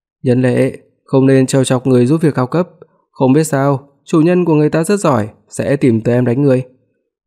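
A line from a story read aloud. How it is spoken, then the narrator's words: Cold. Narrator (Vietnamese): Ngũ Nhân Ái lạnh lùng nói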